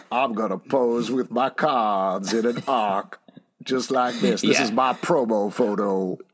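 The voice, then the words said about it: Poor Gambit accent impression. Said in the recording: “Your accent is ... awful.”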